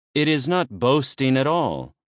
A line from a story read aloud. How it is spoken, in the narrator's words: Theseus replied